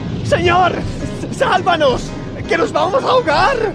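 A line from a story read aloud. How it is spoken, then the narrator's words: Group shouting. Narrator (Spanish): Gritaron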